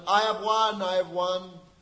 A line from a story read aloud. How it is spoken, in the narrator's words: Rukmi shouted